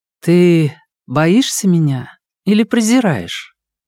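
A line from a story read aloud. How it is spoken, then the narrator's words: Calm question. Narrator (Russian): Минань спокойно спросила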